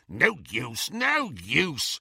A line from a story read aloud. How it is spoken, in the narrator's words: snarled the goblin